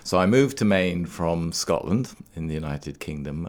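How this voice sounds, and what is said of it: Non-local foreign accent. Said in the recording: “you don't have the accent of a Mainer. You are from elsewhere.”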